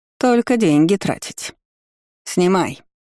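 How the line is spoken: Growled warning. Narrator (Russian): рыкнула родственница

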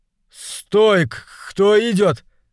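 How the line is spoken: Stammering shout. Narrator (Russian): заикаясь, выкрикнул солдат

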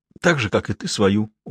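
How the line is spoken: Sobbing. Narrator (Russian): он издал всхлипывающий звук

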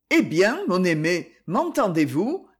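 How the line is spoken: Plain. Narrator (French): demanda-t-il

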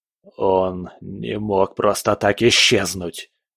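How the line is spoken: Muttering to himself. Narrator (Russian): пробормотал он, разговаривая сам с собой

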